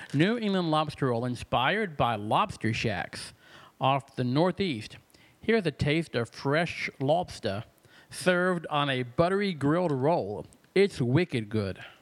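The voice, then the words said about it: Put-on regional accent. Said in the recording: “That's a great accent. You should take that on the road.”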